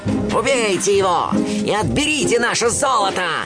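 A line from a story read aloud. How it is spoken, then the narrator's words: Shouting, leader. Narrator (Russian): закричал разбойникам главарь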